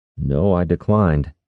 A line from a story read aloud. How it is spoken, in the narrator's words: Brannis said